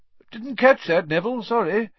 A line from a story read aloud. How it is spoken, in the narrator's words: said Professor Lupin cheerfully